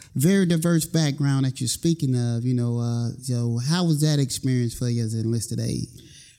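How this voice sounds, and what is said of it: Slow Southern drawl. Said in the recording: “I'm originally from North Carolina, so, you know, I got that slow southern draw”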